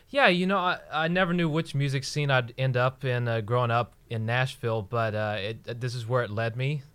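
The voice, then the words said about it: Slight Southern country twang. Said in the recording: “a little bit of the country twang still in your... It's like you're trying to lose it”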